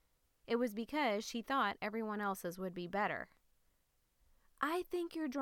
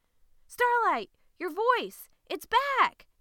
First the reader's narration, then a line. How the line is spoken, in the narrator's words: exclaimed her mother as she ran to hug Starlight